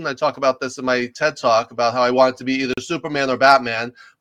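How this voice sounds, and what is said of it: Slight New York accent, fast talking. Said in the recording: “I grew up in New York. You can probably tell I have a little bit of an accent and I talk really fast”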